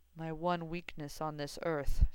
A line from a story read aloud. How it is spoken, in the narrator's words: Severus said blandly